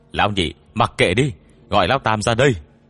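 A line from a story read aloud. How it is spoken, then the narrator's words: Shouted. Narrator (Vietnamese): Sử Nguyên hét lên với đệ đệ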